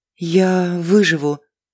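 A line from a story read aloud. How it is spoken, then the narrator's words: Weak whisper. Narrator (Russian): слабым голосом прошептала Алиса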